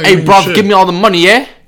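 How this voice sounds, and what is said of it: Mock British accent. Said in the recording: “If a fool try to rob me with a British accent”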